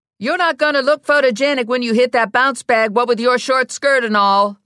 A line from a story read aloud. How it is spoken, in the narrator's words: Lula yelled at Ginny